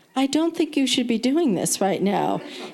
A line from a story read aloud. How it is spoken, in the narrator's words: said gently